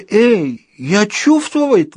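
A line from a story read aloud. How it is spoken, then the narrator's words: Exclaiming. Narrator (Russian): воскликнул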